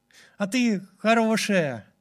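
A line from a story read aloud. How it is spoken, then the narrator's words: Plain. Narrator (Russian): сказал он напоследок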